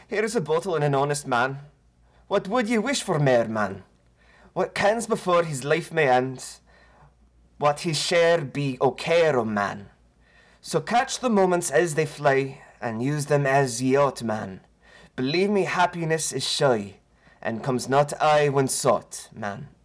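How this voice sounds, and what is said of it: Attempted Scottish accent, reciting poetry. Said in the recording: “I'm probably going to butcher this ... I'm going to attempt a phonetic pronunciation of a Scottish accent”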